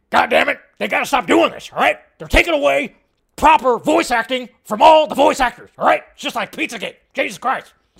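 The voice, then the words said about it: Alex Jones impression. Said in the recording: “my Alex Jones impression”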